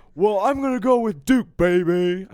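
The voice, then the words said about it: Imitates another person's voice. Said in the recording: “I did a horrible impression right there.”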